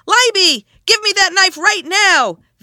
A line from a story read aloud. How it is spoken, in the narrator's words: screaming